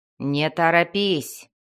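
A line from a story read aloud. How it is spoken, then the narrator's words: Growl. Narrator (Russian): прорычал Энтрери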